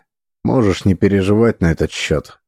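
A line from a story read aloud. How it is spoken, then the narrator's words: Forced even tone. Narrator (Russian): сказал я самым ровным тоном, на какой был способен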